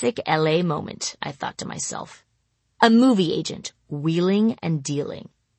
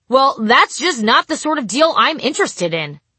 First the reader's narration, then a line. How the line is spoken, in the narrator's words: a short African-American man shouting